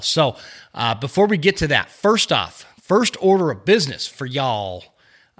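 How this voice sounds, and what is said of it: A little Texas accent. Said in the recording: “I threw in a little Texas accent”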